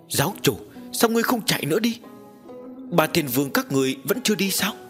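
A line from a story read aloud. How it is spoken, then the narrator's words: Hot-tempered shouting. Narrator (Vietnamese): Tính khí của Lục Thiên Vương nóng nảy quát lên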